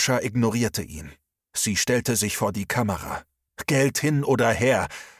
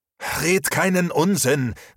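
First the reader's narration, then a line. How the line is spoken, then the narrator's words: Called out. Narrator (German): rief Max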